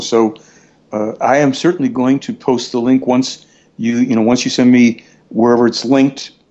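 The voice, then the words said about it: Slightly hoarse voice. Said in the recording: “I'm a little bit hoarse”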